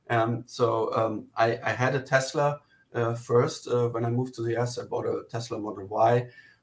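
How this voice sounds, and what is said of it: German accent. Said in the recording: “You hear from my accent, I'm actually German.”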